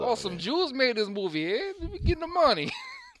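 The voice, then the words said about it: Bad Italian guy impression. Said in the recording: “You sound like a freaking that little Italian guy that bothers me at work. ... That was terrible.”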